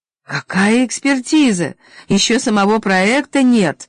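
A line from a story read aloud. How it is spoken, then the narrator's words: Indignant speaker exclaiming. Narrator (Russian): возмущенно воскликнул оратор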